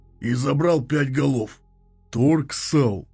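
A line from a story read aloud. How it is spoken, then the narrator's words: Grumbled. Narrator (Russian): проворчал Ксарл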